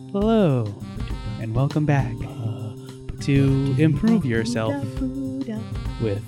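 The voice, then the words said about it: Soft voice imitating another person. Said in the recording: “He has a very soft voice ... I'm going to be a Bob Ross impersonator”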